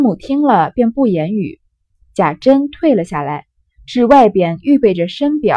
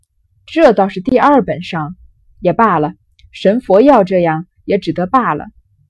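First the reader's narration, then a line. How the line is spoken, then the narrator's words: Laughing. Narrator (Chinese): 贾母笑道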